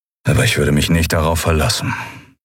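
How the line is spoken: Toneless voice. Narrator (German): sagte Telios mit tonloser Stimme

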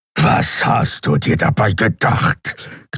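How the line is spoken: Growled. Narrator (German): knurrte Keru

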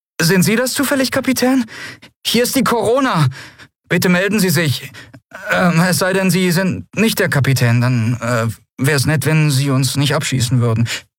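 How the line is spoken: Nervous voice asking. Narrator (German): eine nervöse Stimme fragte

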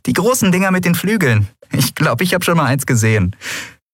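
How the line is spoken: Laughing. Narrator (German): sie lachte

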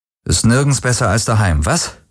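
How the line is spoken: Dry quoting voice. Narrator (German): zitierte Garlan Rick mit trockener Stimme

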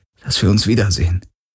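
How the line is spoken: Gentle reminder. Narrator (German): erinnerte Garlin sanft

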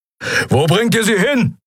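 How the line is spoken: Bellowed. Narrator (German): brüllte Keru

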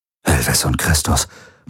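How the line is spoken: Murmuring. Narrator (German): murmelte Rick

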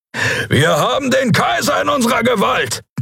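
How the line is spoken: Roaring. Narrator (German): brüllte Keru

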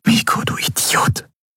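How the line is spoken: Whisper. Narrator (German): flüsterte sie

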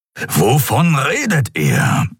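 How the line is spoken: Grumbling. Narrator (German): brummte Keru

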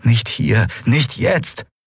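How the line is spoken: Pleading. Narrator (German): flehte sie

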